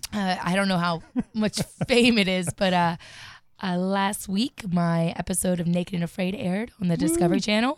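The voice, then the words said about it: Slightly smoky, husky voice. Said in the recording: “You have a very good radio voice. ... a little smoky. ... A little smoky voice ... I do a lot of yelling.”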